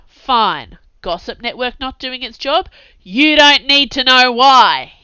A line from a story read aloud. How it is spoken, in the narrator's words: added in a sudden bellow